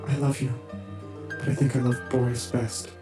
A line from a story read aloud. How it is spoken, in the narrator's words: Genevieve murmured